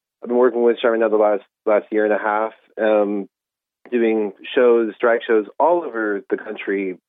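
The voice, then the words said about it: Irish American accent. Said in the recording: “you probably can hear my accent. I'm uh, Irish American, been living in Ireland a very long time”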